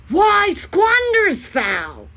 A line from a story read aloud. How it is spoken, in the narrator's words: shouting their shameful maître